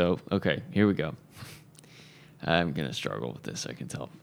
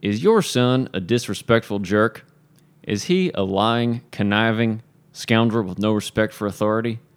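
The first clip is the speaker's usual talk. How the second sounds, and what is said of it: Put-on Southern accent. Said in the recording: “I'm supposed to read this in a Southern accent.”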